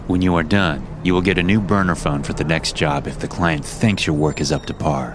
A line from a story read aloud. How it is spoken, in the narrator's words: he said with a sneer